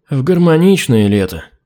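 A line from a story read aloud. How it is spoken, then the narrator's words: Gloomy guilty sigh. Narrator (Russian): Хмуро вздохнул тринадцатый, виновато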